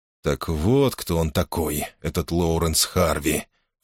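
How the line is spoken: Sighing. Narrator (Russian): вздохнул Чаттон

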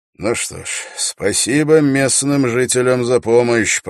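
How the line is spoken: Muttered. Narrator (Russian): пробормотал Холт

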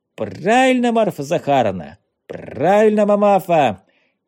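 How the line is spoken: Shout. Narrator (Russian): крикнул Ванюшка

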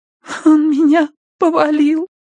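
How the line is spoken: Trembling babble. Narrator (Russian): пролепетала она дрожащим голосом

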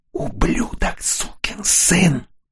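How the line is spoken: Whisper in ear. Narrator (Russian): шепнул ему на ухо мучитель

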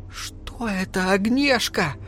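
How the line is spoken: Barely audible whisper. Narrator (Russian): едва слышно прошептала пирожка

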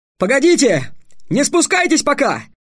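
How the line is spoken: Shouting upward. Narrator (Russian): крикнул он вверх

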